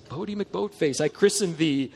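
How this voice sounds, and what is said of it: Put-on British accent. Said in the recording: “Can you imagine some British person? I would even try an accent.”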